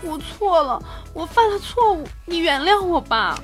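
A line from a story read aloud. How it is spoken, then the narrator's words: Tearful voice. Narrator (Chinese): 这个美眉带着哭腔说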